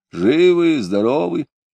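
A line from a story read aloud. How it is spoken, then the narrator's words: Hoarse question. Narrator (Russian): спрашивал хрипло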